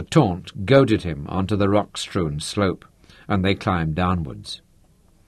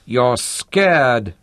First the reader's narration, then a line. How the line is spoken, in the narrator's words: she mocked